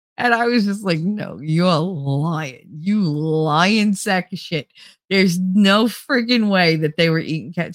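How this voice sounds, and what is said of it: Thick regional accent. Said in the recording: “My accent is so thick.”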